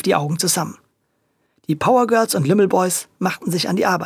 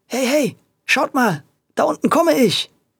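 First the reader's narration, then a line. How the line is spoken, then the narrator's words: Excited shout. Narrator (German): rief er aufgeregt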